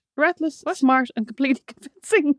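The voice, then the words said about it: Put-on Russian accent. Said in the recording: “like your Russian accent”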